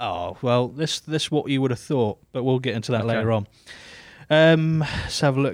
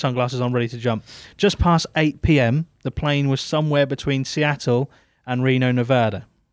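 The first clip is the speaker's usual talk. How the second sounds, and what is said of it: Put-on accent. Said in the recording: “I don't know why I said it in that accent.”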